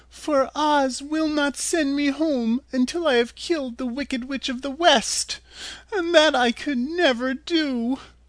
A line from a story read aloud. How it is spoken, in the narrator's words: she said sadly